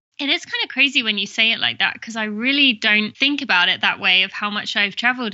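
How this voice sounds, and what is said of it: British English accent. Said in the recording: “people could probably tell from my accent, which is Great Britain. I'm from England.”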